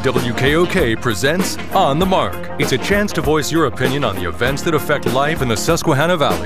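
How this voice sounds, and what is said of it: Deep male announcer voice. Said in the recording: “the deep voice man”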